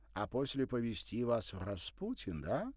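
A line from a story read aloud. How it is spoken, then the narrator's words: Playful, cheerful. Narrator (Russian): включился в игру Николя, перейдя на русский и весело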